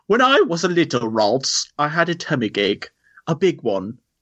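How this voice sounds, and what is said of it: Put-on British accent. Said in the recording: “British accent, please.”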